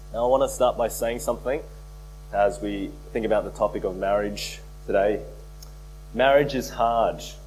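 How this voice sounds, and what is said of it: Voice sounds off, like a cold. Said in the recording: “my voice is not sounding amazing today. I've been fighting a cold”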